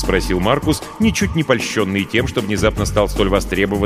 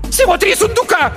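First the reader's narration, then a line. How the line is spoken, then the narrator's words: Shriek. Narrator (Russian): взвизгнула Беатриса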